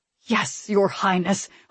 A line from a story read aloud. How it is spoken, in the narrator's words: said, but it was through clenched teeth